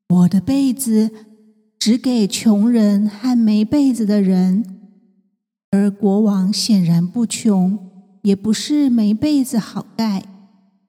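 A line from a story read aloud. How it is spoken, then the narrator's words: Faint smiling. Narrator (Chinese): 被人淡淡笑着说明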